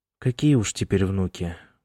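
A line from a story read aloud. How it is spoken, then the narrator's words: Bitter sigh, tearful. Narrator (Russian): горько вздохнула Эмма и всплакнула уже по инерции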